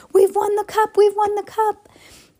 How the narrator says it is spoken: the Gryffindor team sank, yelling hoarsely

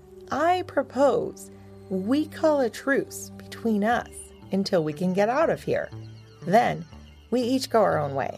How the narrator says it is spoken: said as coolly as possible

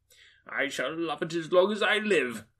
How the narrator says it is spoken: cried Scrooge

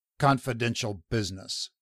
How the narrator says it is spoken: Rin returned coldly

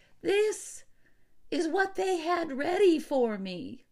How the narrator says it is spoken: he quavered

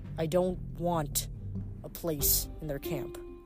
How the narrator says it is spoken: snarled

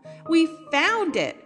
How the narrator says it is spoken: cried the Lucys

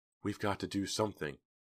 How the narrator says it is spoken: she said softly

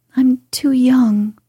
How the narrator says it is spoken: faltered Meg, wondering why she was so fluttered, yet rather enjoying it

